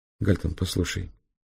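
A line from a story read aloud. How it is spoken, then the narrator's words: Quiet. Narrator (Russian): тихо сказала Зоя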